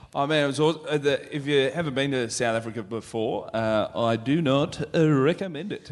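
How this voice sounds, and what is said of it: Put-on South African accent. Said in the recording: “Great South African accent, by the way.”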